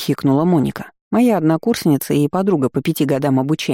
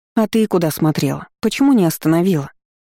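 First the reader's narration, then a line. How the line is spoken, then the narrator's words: Sorrowful sigh. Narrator (Russian): Горестно вздохнула недоразумение с розовыми волосами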